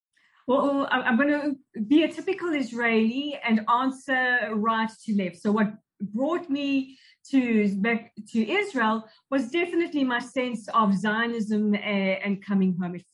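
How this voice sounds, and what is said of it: South African accent. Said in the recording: “Obviously, from the accent, you're from South Africa.”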